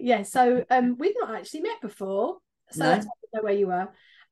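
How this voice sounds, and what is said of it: Southeast London accent. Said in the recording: “more like my southeast London ... my twang gets even twangier”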